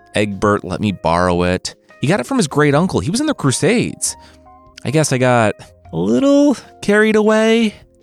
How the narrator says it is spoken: the tailor said

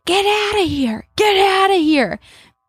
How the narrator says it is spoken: a man in the window yelling

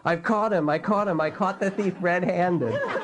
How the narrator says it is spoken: yelling

